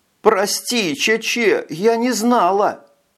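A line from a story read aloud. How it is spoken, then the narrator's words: Sobbing. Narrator (Russian): зарыдала она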